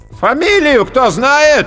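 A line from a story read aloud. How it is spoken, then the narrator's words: Loud, commanding fat man. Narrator (Russian): громко и властно выкликал толстяк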